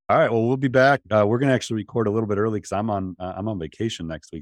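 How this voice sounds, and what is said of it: Raspy voice. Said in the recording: “raspy voice ... No coughing fits, too.”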